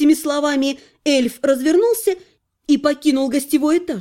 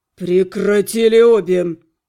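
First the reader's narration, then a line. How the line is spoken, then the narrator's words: Low, clipped through teeth. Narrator (Russian): В полголоса процедил Анхайлик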